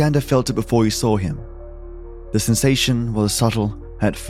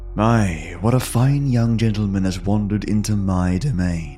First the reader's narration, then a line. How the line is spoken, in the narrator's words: the stranger had said, his voice deep and velvety, like the first sip of rich red wine